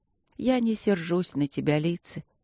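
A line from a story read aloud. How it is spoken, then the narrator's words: Husky and soft. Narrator (Russian): хрипловато и мягко проговорила леди Шарлотта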